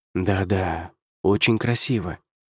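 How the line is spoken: Whisper. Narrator (Russian): прошептал Дэниел

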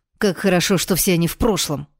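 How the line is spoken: Sharp interruption. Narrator (Russian): резко прервал меня эльф

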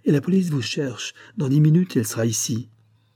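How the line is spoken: Exclaimed. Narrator (French): s'écria Madame Duméril

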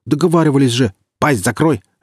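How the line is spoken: Barked. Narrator (Russian): рявкнул Гриф

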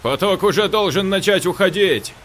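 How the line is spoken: Shouted. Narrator (Russian): крикнул Саша

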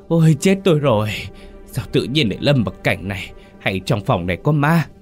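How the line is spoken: Groaning. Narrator (Vietnamese): Hắn rên rỉ

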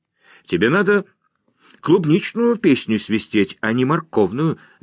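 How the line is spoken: Laughing. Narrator (Russian): засмеялась Николь

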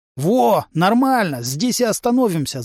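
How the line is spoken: Breathless wheeze. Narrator (Russian): запаленно прохрипел сосед

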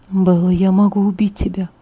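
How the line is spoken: Whisper. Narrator (Russian): прошептал

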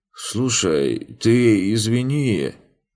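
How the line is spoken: Mumbling. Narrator (Russian): промямлил кучьер

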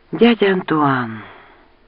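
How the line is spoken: Breathless exhale. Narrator (Russian): выдохнула

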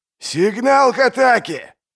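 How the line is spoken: Shout. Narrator (Russian): прокричал Пайк

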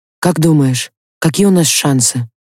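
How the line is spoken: Muffled question. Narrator (Russian): Глухо спросил Дементьев

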